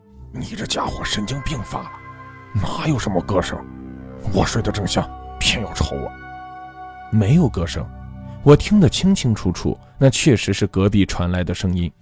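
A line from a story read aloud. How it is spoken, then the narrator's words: Low, scolding, displeased. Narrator (Chinese): 胖子脸色并不好看，低声骂我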